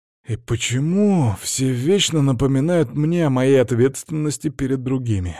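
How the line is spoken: Sigh. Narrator (Russian): вздохнул я

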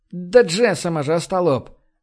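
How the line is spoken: Barked shout. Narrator (Russian): рявкнул Джейк

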